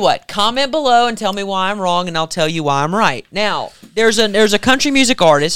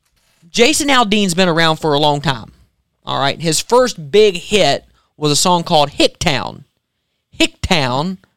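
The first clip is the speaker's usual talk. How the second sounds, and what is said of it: Put-on country accent. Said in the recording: “I'm slipping into the country accent here.”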